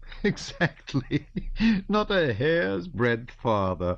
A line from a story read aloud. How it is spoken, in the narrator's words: answered Prince Vasily, laughing